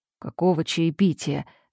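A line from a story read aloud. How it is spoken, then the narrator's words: Sleepy question. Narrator (Russian): сонно спрашивает он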